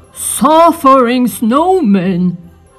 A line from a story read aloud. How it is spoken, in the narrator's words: he cried